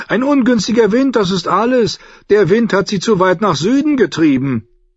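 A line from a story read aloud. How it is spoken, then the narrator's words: Loud contradiction. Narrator (German): widersprach Saladossan laut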